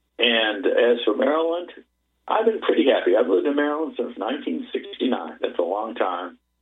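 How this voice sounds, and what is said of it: Slight Massachusetts accent, dropped R's. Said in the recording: “You might still detect just a little bit of a Massachusetts accent when I speak ... you can probably hear the lack of an R there”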